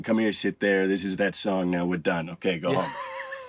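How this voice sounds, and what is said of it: Put-on old New Yorker accent. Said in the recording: “Was that your New York accent right there? ... Yeah, that's the old New Yorker that I do”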